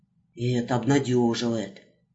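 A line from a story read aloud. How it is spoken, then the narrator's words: Mumbling. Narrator (Russian): пробормотал Иванушка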